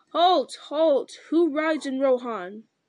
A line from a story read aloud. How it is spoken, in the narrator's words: Eomer cried in a loud voice